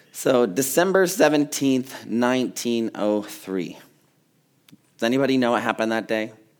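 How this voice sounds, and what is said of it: Congested voice with lowered range. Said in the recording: “I have a cold, so I've lost a part of my range of voice. So I'm going to be down here”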